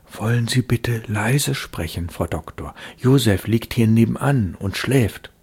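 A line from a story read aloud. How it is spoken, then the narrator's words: Anxious whisper. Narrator (German): flüsterte sie ängstlich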